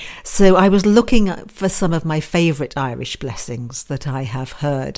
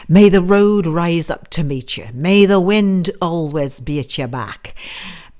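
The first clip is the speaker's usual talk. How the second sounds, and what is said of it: Put-on Irish accent drifting Scottish. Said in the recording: “I think that Irish accent probably slipped into Scottish somewhere in there.”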